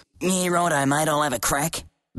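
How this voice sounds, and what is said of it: Broad Australian accent. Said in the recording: “cut the twang and give me a dinky-die Aussie accent”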